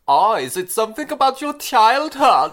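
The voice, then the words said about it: Poor put-on German accent. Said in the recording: “This actor probably did about as much research into doing a German accent as ... did just then ... my German accent's shit”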